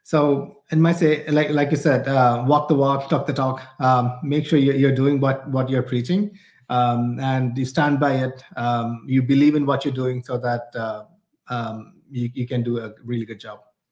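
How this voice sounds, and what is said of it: Non-American, different English accent. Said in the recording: “you're not from New Jersey. You guys have a little bit of a different accent.”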